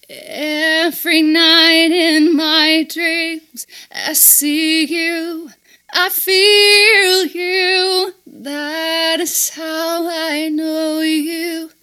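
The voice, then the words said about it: Singing with slight French accent. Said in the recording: “You even had a little bit of a French accent there.”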